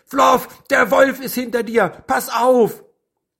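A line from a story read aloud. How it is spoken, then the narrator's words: Horrified scream. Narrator (German): Anna schrie entsetzt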